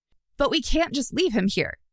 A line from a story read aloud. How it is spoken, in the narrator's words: Kellen blurted out